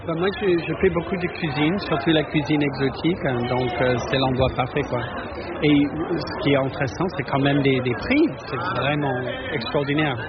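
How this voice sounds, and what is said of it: Slight American accent in French. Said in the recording (French): “Je reconnais un petit accent ... Oui, je suis américain.”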